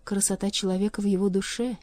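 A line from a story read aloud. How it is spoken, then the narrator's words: Soft gentle voice. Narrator (Russian): мягко промолвила она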